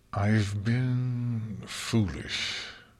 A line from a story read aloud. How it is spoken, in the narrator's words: Luna admitted, though it was through her teeth